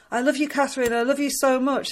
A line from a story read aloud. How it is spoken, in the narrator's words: he shouts